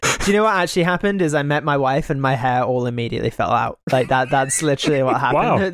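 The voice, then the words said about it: British accent. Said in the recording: “have a British accent ... with a white face and British accent.”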